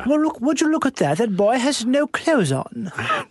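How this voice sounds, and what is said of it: Snooty upper-class British accent. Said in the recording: “But now you're doing British royal family ... doing that British voice ... my default voice for someone who's ... snotty ... And has money”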